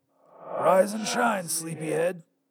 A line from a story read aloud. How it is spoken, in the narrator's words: said, in my voice, though a bit raspy